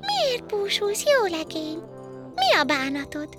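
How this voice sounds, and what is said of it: Bell-like little girl's voice. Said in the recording (Hungarian): “Meg is szólítja a kislány csengettyű hangon.”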